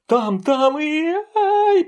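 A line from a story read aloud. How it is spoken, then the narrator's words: Squeal. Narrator (Russian): провизжал Тишка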